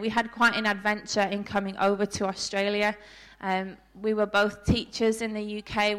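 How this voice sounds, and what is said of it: British English accent. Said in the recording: “I don't think I'm losing my accent anytime soon... My family think I don't sound as British as we did when we first came. But I'm sure to you I sound very, very British.”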